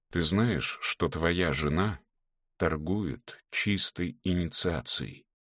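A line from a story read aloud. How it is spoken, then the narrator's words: Heavy detached voice. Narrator (Russian): сказала Соня, тяжелым отрешенным голосом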